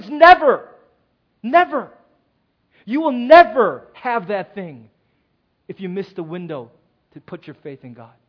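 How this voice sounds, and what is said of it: Yelling, loud emphatic preaching. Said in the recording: “I'm yelling”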